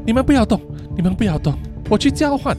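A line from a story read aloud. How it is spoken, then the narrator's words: Pleading. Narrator (Chinese): 琉璃向 Janet 和 Shy 发出哀求说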